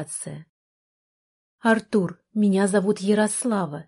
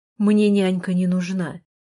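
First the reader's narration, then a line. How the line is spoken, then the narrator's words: Rude. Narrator (Russian): грубо сказал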